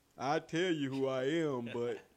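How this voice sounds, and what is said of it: Put-on deep voice. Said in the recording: “Not the deep voice.”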